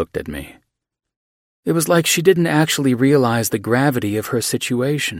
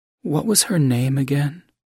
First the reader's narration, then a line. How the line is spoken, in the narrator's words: he asked softly